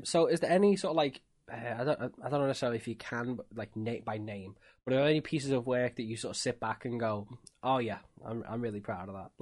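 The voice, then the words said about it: Scouse (Liverpool) English accent. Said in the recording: “I love the Scouse accent ... I can sense the Scouse there.”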